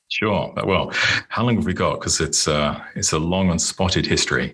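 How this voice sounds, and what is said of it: British accent. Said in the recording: “obviously, my accent, I'm not a native. I was born and grew up in the UK.”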